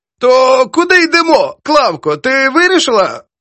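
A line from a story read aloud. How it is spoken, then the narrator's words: Heavy wheezing breath. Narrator (Ukrainian): Прохорова важко дихала, хриплячи прокуреними легенями, як гармошкою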